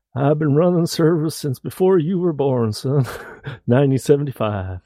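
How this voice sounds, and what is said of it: Put-on accent. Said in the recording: “I have to go back and do that with an accent.”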